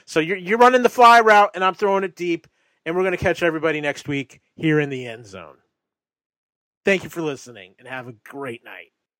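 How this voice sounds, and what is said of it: Congested, tired, breathless voice. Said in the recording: “I'm tired and I've got a cold and I'm out of breath.”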